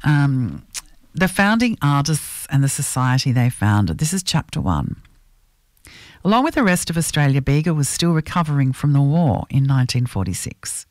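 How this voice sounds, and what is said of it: Croaky, hoarse voice. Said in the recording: “sorry about my voice. It's a bit croaky”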